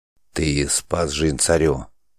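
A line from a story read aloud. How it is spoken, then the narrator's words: Whispered prompt in ear. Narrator (Russian): На ухо шепотом подсказал Варжук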